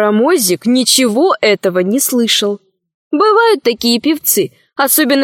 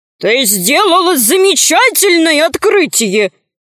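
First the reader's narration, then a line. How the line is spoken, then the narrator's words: Roaring. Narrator (Russian): проревел он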